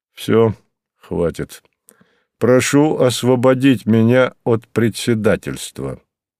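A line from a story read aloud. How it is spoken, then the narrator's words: Gloomy. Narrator (Russian): мрачно сказал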